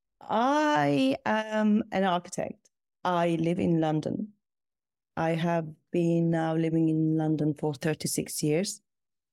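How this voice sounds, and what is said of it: Non-British foreign accent. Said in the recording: “As you probably can hear from my accent, I'm not British. I was born outside the UK.”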